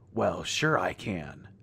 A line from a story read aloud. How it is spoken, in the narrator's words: Jake purred, looking pleased by our fearful state